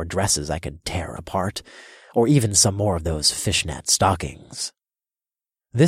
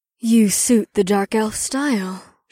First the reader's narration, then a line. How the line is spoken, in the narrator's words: purred